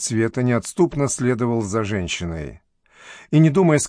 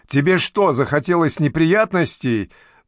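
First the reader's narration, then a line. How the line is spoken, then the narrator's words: Yelling, abruptly cut off. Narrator (Russian): заорала она но тут же осеклась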